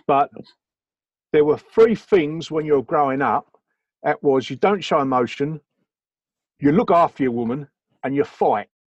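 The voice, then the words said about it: Attempted Cockney accent. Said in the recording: “I'm going to try very hard to muck up this Cockney accent.”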